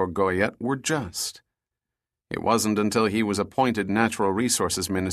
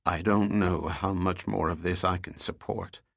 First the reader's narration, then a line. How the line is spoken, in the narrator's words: he told Goyette in a tired voice